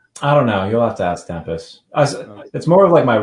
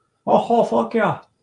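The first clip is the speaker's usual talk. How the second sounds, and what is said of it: Put-on Canadian accent. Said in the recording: “That's my Canadian impression. ... my Russell Peters impression of him doing a Canadian impression”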